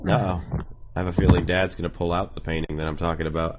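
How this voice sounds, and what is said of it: Sick, rough-sounding voice. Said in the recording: “I sound terrible right now because I'm sick.”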